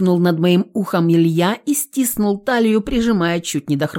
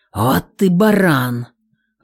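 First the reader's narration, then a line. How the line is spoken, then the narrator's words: Dejected exhale. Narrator (Russian): выдохнул Горинов сокрушенно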